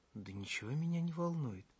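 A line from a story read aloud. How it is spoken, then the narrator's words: Calmer. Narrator (Russian): более спокойно произнесла она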